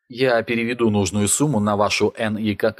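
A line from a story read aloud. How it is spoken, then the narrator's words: Plain. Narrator (Russian): ответил Накамура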